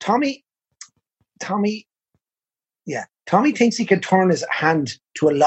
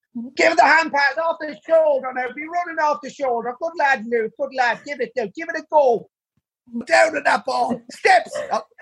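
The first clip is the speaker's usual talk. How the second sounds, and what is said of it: Shouting coach in Meath accent. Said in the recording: “he's shouting in a Meath accent”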